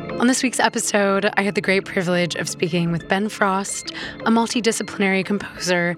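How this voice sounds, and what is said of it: Slightly hoarse, partly lost voice. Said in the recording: “As you might be able to hear, I have slightly lost my voice,”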